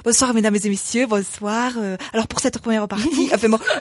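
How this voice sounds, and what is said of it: Exaggerated Auvergne regional French accent. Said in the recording (French): “je prends un accent vachement arvéronais ... il y a vraiment des gens ici qui parlent comme ça ... si on force le trait”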